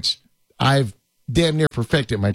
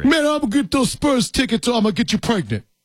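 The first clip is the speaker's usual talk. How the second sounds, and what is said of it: Imitates another person's voice. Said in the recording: “my Tracy Morgan impersonation ... That's my Tracy Morgan impersonation.”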